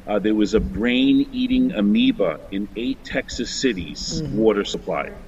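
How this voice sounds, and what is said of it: Long Island New York accent. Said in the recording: “My accent shows that I'm from the island of Long, so I know Brooklyn well.”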